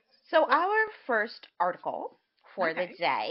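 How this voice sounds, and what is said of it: Usual voice. Nothing is said of it.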